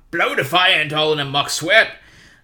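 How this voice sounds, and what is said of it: Poor impression of a film giant's voice. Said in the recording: “my terrible Hagrid impersonation”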